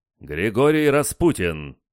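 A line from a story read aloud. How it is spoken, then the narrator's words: Loud formal announcement. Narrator (Russian): Дворецкий громко объявил меня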